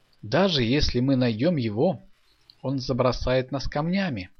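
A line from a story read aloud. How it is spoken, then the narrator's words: Plain. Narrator (Russian): сказал Аякс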